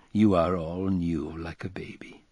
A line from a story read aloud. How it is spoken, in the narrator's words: said, laughing gravely